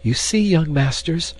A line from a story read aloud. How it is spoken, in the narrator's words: the dame was panting